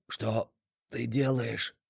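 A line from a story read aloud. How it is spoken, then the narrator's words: Barely audible wheeze. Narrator (Russian): Еле слышно прохрипел парень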